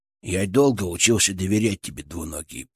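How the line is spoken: Grumbled. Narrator (Russian): пробурчал он

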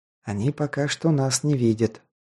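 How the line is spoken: Quiet reply. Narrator (Russian): так же тихо ответил я

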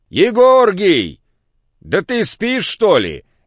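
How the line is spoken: Shouted from below. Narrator (Russian): крикнул внизу Пантелей

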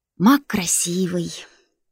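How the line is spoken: Dreamy sigh. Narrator (Russian): вздохнула Баська, мечтательно зажмурившись

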